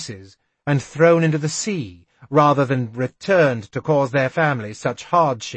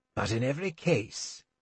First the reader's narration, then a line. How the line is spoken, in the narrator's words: Chade told me wearily